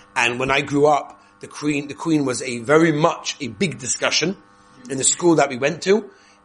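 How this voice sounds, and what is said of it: English accent. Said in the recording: “I come from England, as you know. I can't really give away my accent.”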